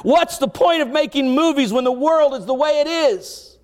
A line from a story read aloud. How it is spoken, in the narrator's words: he screamed to the entire cast